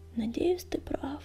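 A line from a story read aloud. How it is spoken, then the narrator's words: Muttered. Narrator (Russian): пробормотал Горелый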